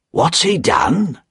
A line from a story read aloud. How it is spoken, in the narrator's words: Jerry asked the doorman quietly